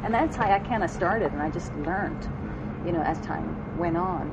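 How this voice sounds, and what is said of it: Strong non-American accent. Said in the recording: “as you can hear, I have a, a pretty strong accent... you have a nice accent”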